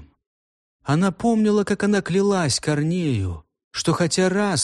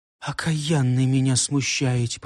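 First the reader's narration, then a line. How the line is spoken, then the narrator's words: Whisper. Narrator (Russian): прошептала она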